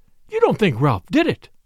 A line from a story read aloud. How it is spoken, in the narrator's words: cried Flora